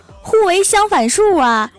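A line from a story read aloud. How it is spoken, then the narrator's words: Angry shouting. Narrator (Chinese): 女人继续气愤的喊道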